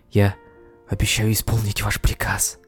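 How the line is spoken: Whisper barely containing joy. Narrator (Russian): едва сдерживая радость, прошептала Мунвой

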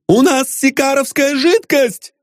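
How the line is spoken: Sad shout. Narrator (Russian): кричал он грустным голосом

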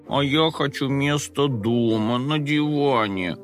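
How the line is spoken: Mournful moan. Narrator (Russian): горестно простонал Компот

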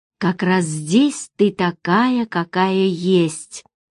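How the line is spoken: Gentle objection. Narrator (Russian): мягко возразил Владимир

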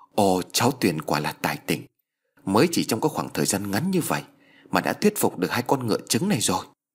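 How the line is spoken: Excited, joyful couple. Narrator (Vietnamese): ông bà Thành Danh vui mừng rối rít

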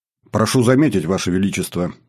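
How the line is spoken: Stern. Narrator (Russian): строго начал командующий флотом

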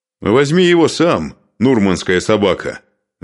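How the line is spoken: Shout. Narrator (Russian): закричал он

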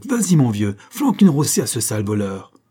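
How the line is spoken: Shouted. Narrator (French): criait-il à Buck

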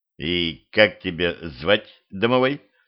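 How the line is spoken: Plain. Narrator (Russian): спросил я

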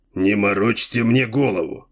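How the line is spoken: Angry. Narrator (Russian): сердито сказал землянин

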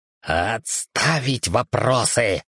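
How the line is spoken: Fierce barked whisper. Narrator (Russian): страшным шепотом гаркнул

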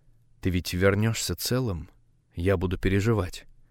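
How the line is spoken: Quiet, ingratiating. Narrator (Russian): произнесла тихо, вкрадчиво

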